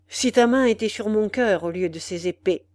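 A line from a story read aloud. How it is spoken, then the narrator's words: Cold young man. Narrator (French): dit froidement le jeune homme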